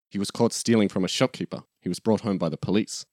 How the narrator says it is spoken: Mama hesitates, quietly says

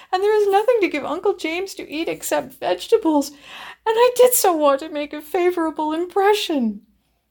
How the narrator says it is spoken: she sobbed

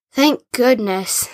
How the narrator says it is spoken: said Jack, breathing a sigh of relief

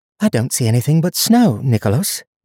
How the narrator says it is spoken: Donia said, keeping her tone polite

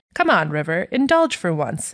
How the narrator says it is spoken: Amy said

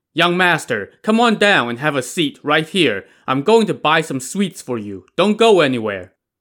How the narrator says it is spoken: Regaining his composure, Zhu Tong called out to the prefect's son

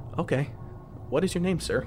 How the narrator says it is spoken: Taken aback by what was in front of me, I asked nervously

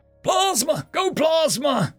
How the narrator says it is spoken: Two screamed

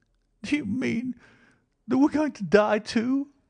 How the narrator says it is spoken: asked the child, checking her sobs

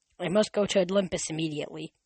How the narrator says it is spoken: said

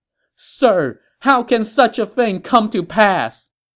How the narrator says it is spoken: the emperor cried out to him

